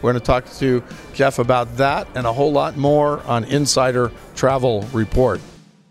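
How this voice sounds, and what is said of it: Slightly strained, tired voice. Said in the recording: “My voice is going a little bit”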